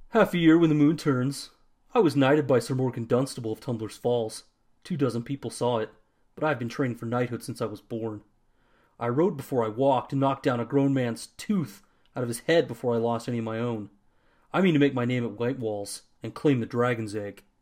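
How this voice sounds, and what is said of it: Gruff, bullheaded character voice, accented. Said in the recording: “did that voice come from? ... You made him sound ... Sufficiently bullheaded ... the bad accent”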